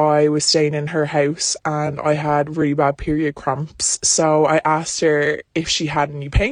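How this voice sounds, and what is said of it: Usual voice. Nothing is said of it.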